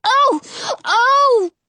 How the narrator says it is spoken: Jonah shrieks

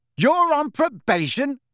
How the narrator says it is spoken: said Ron very loudly

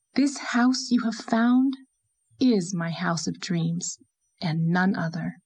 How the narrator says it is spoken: said Anne, with a long sigh of supreme satisfaction

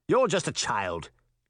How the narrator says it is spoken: Charming snapped

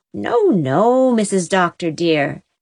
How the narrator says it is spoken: exclaimed Susan, turning a deep brick red from shame

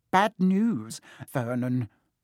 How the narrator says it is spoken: she said

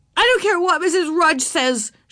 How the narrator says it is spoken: shouted

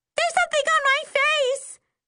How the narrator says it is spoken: Trishelle shrieks

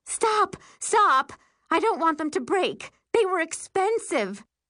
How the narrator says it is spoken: Jennifer screams

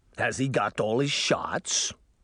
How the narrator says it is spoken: the driver grumbled

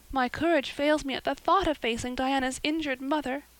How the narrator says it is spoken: sighed Anne

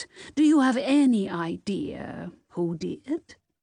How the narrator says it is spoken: Nessbaum chuckled

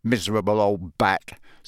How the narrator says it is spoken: said Ron bitterly

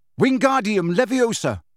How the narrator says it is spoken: he shouted

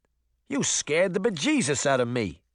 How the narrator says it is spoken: Boots said in a thick New Jersey accent

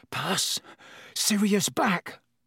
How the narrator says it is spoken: said Ron faintly

